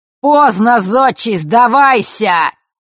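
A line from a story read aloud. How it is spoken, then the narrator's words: Mocking roar, stranger. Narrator (Russian): проревел чужой насмешливый голос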